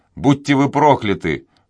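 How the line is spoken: Prisoner's exclamation. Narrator (Russian): воскликнул пленник

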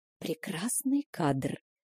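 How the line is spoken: Conspiratorial whisper. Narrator (Russian): заговорщицки шепнула мне Стеси

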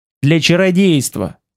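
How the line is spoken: Curt and angry. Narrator (Russian): отрезал сердито

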